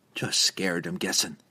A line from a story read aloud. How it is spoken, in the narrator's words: she replied quietly